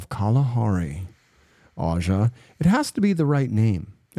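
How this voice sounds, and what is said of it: Usual voice. Nothing is said of it.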